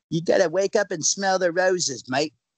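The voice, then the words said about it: Put-on Australian accent. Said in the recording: “You think that sounds Australian? ... Is it good Australian at least? ... you sound straight up like a person from New South Wales.”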